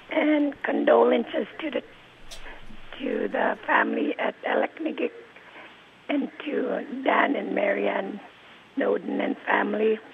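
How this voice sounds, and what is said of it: Hoarse, weak voice. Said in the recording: “Getting my voice back from laryngitis.”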